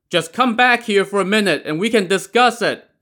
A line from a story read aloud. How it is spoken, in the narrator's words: the leader of the men on land shouted